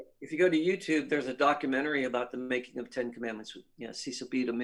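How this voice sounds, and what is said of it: Usual voice. Nothing is said of it.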